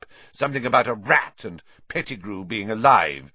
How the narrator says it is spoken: spat Snape

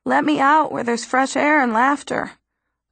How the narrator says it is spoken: a voice within me cries

